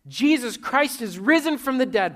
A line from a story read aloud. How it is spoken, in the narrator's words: Bobby shouted, so that the sound filtered far off into the jungle